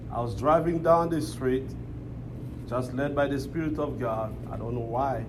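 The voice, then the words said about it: Congolese-accented English. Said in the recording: “I'm from the Congo ... my Blackanese accent”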